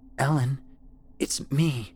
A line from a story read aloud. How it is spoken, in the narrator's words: she croaked, barely speaking above a whisper